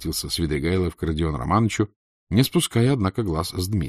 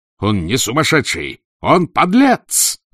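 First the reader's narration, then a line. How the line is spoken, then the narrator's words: Roared. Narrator (Russian): взревел Дмитрий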